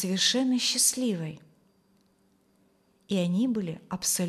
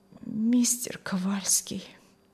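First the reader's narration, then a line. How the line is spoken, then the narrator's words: Strained, barely forced out. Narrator (Russian): еле выдавила она из себя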